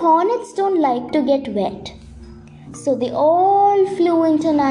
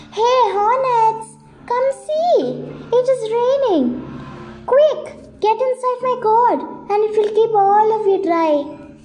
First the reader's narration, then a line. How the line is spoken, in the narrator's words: He called out to the hornets